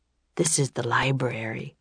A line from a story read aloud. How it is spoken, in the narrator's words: he said in a hushed voice